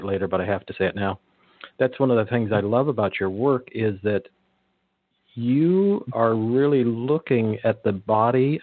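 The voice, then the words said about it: Speaking very slowly and deliberately. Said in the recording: “I'm saying this really slowly”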